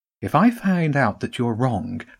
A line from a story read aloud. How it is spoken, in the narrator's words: said calmly